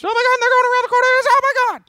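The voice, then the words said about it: Excited high-pitched voice. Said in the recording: “it's more high-pitched, right? ... He gets excited, so it's like that high-pitched”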